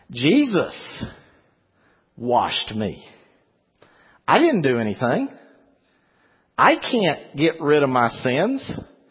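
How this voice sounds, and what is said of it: Non-local accent. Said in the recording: “I got a funny accent up here. Where I came from, my accent was fine... But now I got the funny accent.”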